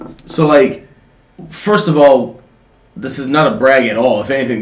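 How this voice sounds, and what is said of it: Usual voice. Nothing is said of it.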